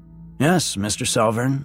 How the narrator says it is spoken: I said

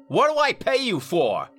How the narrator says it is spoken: Carver snapped

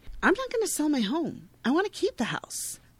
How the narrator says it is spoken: Jenny, who has already moved into the house in her mind, states indignantly

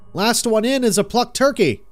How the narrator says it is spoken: shouted

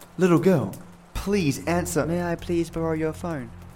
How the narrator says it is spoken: Her voice is calm and kind of deep

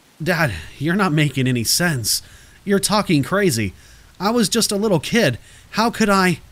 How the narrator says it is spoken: I protest, my voice shaky

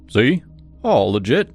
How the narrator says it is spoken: Mike said, his voice deep but friendly

